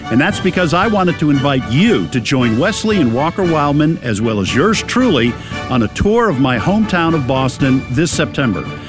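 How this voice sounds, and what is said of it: Boston accent. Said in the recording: “it's a Boston accent.”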